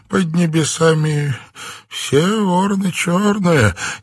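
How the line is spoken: Uncertain, smiling. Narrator (Russian): неуверенно улыбнулся Филипп

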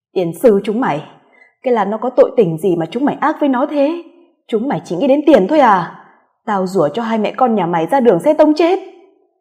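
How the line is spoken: Screaming, cursing. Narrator (Vietnamese): Cô gào lên mất bình tĩnh rồi rủa nó

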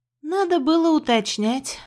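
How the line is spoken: Sighing. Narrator (Russian): вздохнула я

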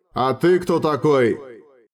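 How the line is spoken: Menacing question. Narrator (Russian): грозно спросил Хорст

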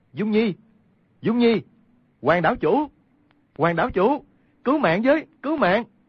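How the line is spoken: Worried loud cry. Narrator (Vietnamese): Quách Tĩnh trong lòng lo lắng cao giọng kêu lên

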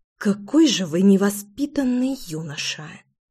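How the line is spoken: Through gritted teeth. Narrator (Russian): Процедила я сквозь зубы

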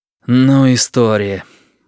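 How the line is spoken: Exhaling. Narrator (Russian): выдохнул Олег

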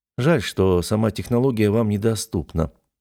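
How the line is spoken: Sighing. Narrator (Russian): вздохнул я

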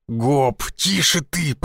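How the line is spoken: Hissing. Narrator (Russian): прошипел я

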